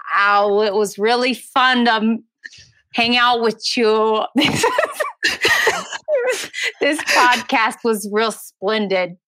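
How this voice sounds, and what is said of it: Passable put-on Brooklyn accent. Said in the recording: “I am so terrible at doing accents... Let's hear a Brooklyn accent... A Brooklyn accent... No one in Brooklyn says splendid. You were great up until that point though. You were passable until that point.”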